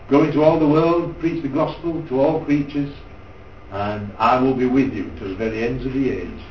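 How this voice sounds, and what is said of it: Non-American accent. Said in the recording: “I'm not an American preacher. You know that. I've got the wrong accent for a start.”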